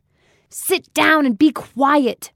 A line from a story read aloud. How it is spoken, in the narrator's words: Marcia barked over her loudspeaker